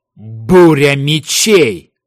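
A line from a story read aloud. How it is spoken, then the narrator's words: Shout. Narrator (Russian): выкрикнул Кай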